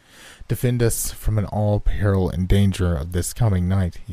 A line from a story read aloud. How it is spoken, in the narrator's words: exclaimed